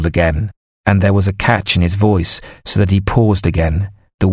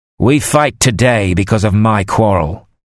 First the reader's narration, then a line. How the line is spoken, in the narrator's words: the king shouted, his voice clear and confident now